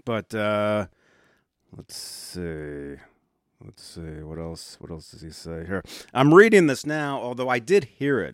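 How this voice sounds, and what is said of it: Weird, under-the-weather sounding voice. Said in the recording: “my voice is kind of weird. I've been under the weather for about 4 or 5 days now.”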